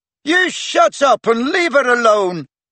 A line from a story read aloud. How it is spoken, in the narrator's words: shouted Peaks